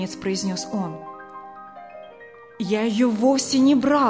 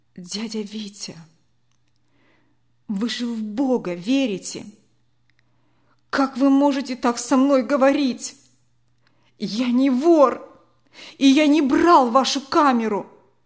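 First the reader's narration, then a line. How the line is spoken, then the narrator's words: Trembling voice. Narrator (Russian): Костя дрогнувшим голосом произнес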